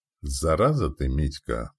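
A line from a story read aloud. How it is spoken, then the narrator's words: Through gritted teeth. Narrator (Russian): процедил сквозь зубы дядька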